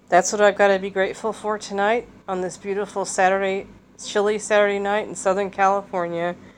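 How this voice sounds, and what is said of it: Congested voice from a head cold. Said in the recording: “I'm still fighting a cold ... It's only a head cold, so I can talk.”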